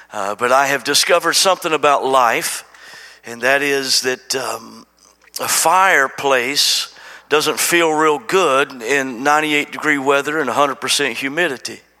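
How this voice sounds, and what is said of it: Slightly sore, grating voice. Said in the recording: “got a little bit of a sore throat. I hope that doesn't, my voice is not too grating on you today.”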